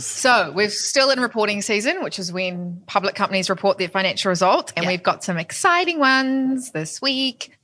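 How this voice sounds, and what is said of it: Put-on American accent. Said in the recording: “Don't know why I'm talking in an American accent.”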